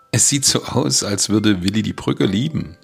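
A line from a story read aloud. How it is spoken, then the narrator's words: Laughing. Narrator (German): sagte Becky lachend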